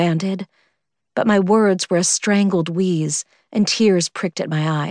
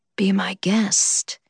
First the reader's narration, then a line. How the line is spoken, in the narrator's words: whispered up against my ear, his breath hot and stale